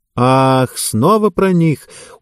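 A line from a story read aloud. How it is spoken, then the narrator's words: Tired woman. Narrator (Russian): устало кивнула одна из женщин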